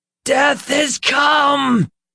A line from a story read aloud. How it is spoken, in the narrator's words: Peter screamed